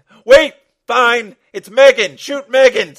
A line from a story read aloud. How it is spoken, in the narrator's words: screamed Mark DuPont